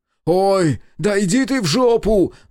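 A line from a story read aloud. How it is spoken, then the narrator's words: Roaring. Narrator (Russian): Натурально взревел он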